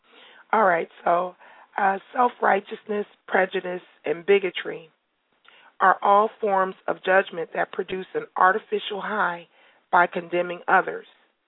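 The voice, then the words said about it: Strained, fading voice. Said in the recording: “please do excuse my voice. I am starting to lose that a little bit. I'm doing a lot of speaking this week”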